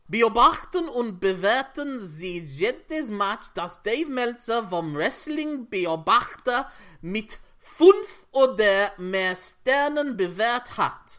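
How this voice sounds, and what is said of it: German spoken with Welsh-sounding accent. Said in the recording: “what happened to your accent there ... that went a bit Welsh”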